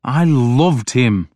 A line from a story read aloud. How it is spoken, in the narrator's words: blurted out